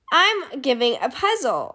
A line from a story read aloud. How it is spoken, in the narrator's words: said Bear